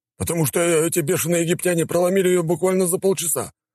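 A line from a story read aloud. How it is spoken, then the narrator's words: Howling general. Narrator (Russian): взвыл генерал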